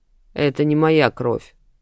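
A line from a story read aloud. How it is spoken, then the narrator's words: Grumble. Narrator (Russian): буркнул Ахалф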